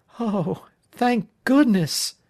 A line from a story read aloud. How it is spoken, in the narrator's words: Sandy gasped